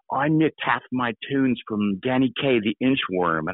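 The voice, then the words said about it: Deliberately poor English accent impression. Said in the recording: “I can't do his accent. It's going to be terrible English accent”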